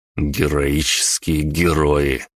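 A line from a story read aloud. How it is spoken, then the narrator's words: Wry grunt. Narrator (Russian): хмыкнул я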